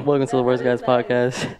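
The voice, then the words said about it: Smooth radio announcer voice. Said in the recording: “Can we get real smooth with it? ... Oh, you got your radio voice on.”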